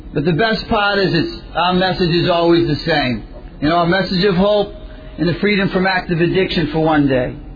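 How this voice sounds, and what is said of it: Slight Boston accent. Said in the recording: “there's a little accent. I come from Winthrop, Massachusetts, which is just outside of Boston”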